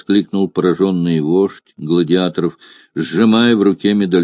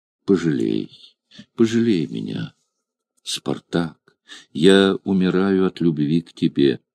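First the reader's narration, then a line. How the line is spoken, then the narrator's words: Pleading whisper. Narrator (Russian): Она умоляюще прошептав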